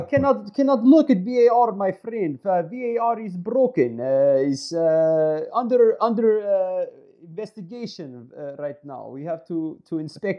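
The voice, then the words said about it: Convincing put-on Russian accent. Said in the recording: “That's pretty impressive Russian accent there.”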